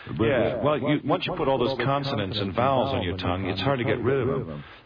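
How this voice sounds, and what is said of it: Mid-Atlantic classical theater accent. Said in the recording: “what I've developed is a classical voice, what we call a mid-Atlantic accent. So now nobody thinks I'm American. So they all think I'm English.”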